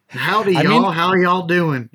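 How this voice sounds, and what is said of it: Put-on Texan Southern American accent. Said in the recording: “ask people to speak an American accent, and they always do Texas ... that's an American accent as far as they're concerned”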